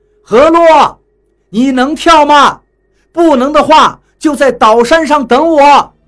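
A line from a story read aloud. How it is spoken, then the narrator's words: Shouting. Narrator (Chinese): 我 回头对何洛喊道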